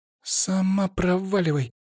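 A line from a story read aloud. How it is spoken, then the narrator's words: Hissed. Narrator (Russian): прошипела Анна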